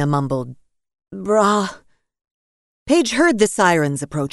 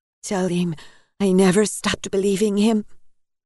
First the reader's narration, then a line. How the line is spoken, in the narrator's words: Elena begged, her voice almost inaudible